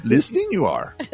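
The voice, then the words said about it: Yoda-style character voice. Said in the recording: “did you like my Yoda impression really there ... I thought it was Fozzie Bear.”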